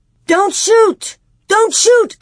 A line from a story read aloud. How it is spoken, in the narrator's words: Almanzo yelled, though he knew that his yells were useless against the wind